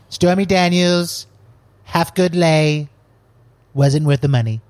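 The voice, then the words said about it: Imitates another person's voice. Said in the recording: “do a Trump impression ... I just want you to be Trump for the rest of the episode ... we could just interview Donald Trump”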